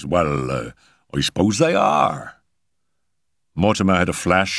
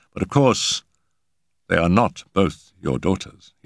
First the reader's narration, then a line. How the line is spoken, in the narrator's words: he said smoothly